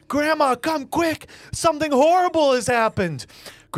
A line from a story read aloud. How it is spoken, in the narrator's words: The children scream